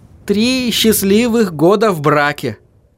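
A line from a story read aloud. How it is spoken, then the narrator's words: Joyful. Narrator (Russian): радостно сообщил Артур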